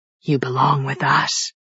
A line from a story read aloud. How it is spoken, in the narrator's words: a snake hissed in my ear